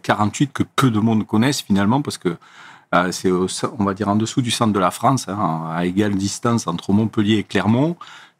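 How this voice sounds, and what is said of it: Noticeable regional French accent. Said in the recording (French): “on entend un bel accent”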